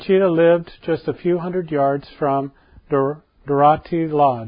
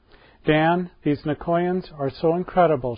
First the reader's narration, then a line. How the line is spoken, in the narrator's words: answered